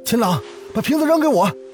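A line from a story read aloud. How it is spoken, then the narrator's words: Shouting. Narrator (Chinese): 陆凡大喊道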